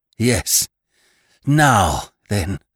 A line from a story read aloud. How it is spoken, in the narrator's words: gasped Annie at length